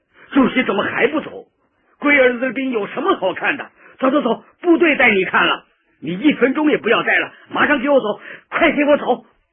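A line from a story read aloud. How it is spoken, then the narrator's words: Roaring. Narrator (Chinese): 彭老总就吼起来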